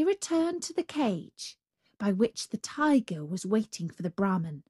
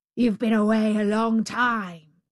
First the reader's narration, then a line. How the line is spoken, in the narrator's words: growled the savage beast